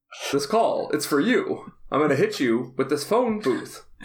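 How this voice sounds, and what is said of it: Imitates a sitcom character's voice. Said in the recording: “good Niles impression”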